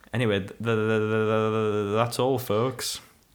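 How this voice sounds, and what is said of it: Porky Pig cartoon voice impression. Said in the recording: “your Porky Pig impression”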